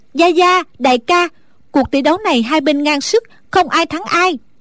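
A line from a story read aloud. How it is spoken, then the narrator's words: Relieved loud call. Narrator (Vietnamese): A Tú thở phào một cái như cất được gánh nặng, nàng lớn tiếng gọi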